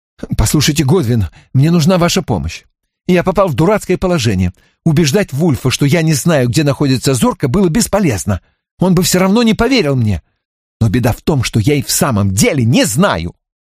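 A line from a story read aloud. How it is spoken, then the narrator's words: Confidential whisper. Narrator (Russian): Барретт вдруг доверительно зашептал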